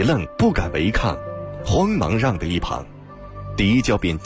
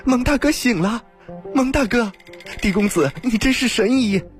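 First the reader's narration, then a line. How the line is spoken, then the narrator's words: Joyful shout. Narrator (Chinese): 青鸾顿时大喜 叫道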